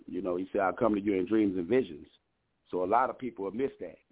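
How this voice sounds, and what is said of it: New Orleans accent. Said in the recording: “you got an accent, man. I like your accent. ... I'm originally from New Orleans, Louisiana. ... I know I heard a twist in there”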